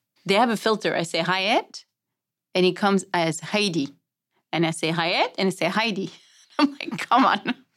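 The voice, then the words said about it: French accent. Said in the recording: “it's all about my accent. I'm French”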